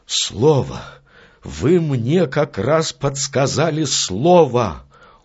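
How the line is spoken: Exclaiming. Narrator (Russian): Уилфрид Боэн вскрикнул

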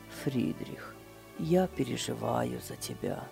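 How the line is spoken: Quiet speech. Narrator (Russian): тихо сказал

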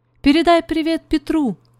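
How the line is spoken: Shouted. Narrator (Russian): крикнула она Зузи

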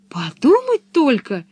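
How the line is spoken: Exclaiming. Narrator (Russian): воскликнула Пеппи

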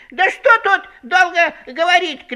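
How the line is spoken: Bold shout. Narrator (Russian): кричал расхрабрившийся окончательно заяц

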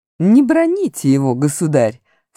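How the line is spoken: Plain. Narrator (Russian): сказал лорд Дарин

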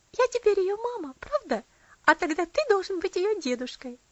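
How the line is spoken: Girl laughing cheerfully. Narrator (Russian): девочка весело рассмеялась

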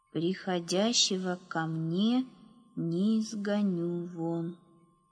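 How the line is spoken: Slow reading aloud. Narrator (Russian): медленно прочитал Ефим

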